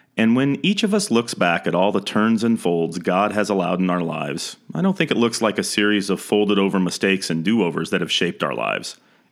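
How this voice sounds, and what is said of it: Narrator voice. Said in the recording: “put on my narrator voice”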